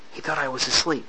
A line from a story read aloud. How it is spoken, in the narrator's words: Semeta whispered